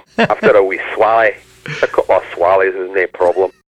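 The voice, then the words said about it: Put-on thick Scottish accent. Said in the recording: “They have that thick Scottish accent. ... See, that's the kind of stuff they were saying.”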